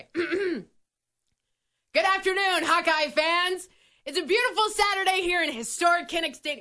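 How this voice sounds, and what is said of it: Yelling, slightly out of breath. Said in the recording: “Why am I yelling? ... You also sound a little out of breath.”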